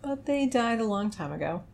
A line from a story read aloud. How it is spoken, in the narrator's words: Calyx sighed